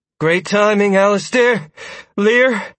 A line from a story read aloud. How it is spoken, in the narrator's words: Sierra said breathlessly